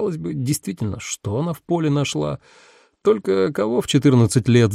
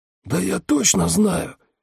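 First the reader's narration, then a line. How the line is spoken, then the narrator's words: Hoarse insistent man. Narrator (Russian): хриплым голосом убеждал широкоплечий мужчина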